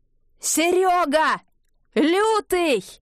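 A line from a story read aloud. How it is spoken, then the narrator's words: Full-throated yell. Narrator (Russian): заорал во все горло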